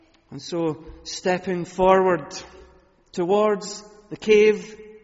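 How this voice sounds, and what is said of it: Usual voice. Nothing is said of it.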